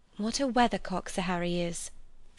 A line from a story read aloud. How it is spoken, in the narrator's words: said Lucy quietly